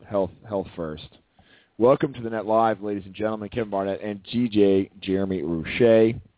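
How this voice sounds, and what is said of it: Badly hoarse, nearly lost voice. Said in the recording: “terrible voice edition ... My voice is gone ... it is now gone entirely this morning”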